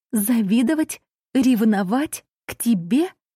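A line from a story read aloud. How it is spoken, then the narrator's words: Hoarse laugh. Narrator (Russian): Она хрипло рассмеялась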